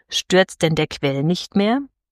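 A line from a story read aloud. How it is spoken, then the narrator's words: Toneless question. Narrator (German): fragte sie mit tonloser Stimme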